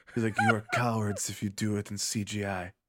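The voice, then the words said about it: Werner Herzog impression. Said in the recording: “do a Werner Herzog impression ... think in his voice”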